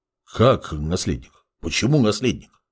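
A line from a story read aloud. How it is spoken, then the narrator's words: Confused mutter. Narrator (Russian): растерянно пробормотал Геолерон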